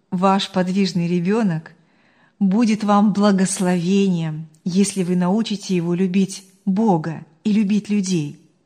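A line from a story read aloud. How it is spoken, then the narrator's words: Calm and firm. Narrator (Russian): спокойно и твердо сказала она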